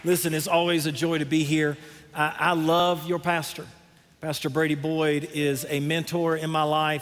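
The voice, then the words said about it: Genuine Southern American accent. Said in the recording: “this Southern accent is for real. All right, it is genuine”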